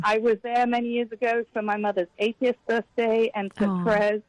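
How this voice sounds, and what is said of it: Noticeable foreign English accent. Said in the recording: “I love listening to your accent ... If you have a British accent or an Australian accent”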